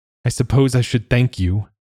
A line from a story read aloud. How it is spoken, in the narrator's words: he said, his voice trembling